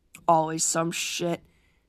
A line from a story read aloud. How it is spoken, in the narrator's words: mumbles